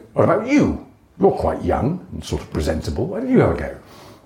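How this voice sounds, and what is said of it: Imitates another person's voice. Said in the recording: “That's a really good impression of John Bentley, actually.”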